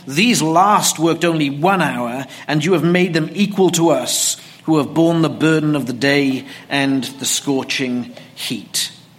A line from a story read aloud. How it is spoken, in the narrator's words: The workers grumble, saying